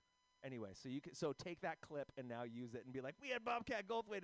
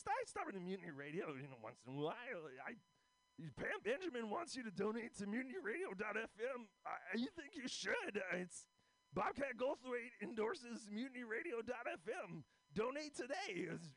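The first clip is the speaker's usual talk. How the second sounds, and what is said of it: Imitates another person's voice. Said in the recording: “here's my impression of Bobcat Goldthwait.”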